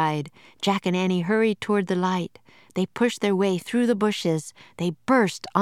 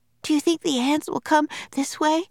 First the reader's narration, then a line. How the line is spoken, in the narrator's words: Annie said, panting